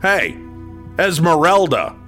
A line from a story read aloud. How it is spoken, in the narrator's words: called out